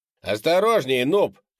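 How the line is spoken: Shouted. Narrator (Russian): крикнул Кенни

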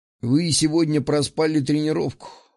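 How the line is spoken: Snort. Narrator (Russian): хмыкнул я

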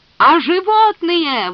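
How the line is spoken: Wailing, yelling. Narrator (Russian): вопил Арнольд

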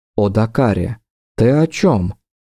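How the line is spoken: Perfectly calm, hiding fear. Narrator (Russian): Совершенно спокойно, ничем не выдав страха, что всего секунду назад плескался в каждом ее вздохе, произнесла Ингария

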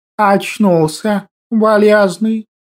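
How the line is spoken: Soft velvety drawling voice. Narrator (Russian): неожиданно произнес котяра тем самым мягким, бархатистым и тягучим голоском

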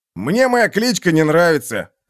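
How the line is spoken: Grumbled. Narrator (Russian): пробурчал Нагоняй

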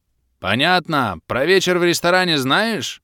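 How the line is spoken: Roaring half-orc. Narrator (Russian): проревел полуорк

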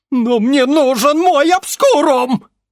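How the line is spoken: Hysterical shriek. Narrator (Russian): Истерически взвизгнул Бестужев

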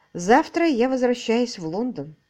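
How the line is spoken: Sad voice. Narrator (Russian): грустно проговорила она

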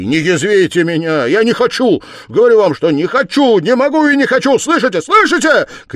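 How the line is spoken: Shouting, banging the table. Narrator (Russian): крикнул, стукнув опять кулаком по столу

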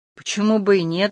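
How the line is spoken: Sad, surprised orderly's reply. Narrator (Russian): отозвался денщик печально и удивленно

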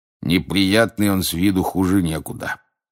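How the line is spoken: Grumbling. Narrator (Russian): проворчал мужчина у стойки

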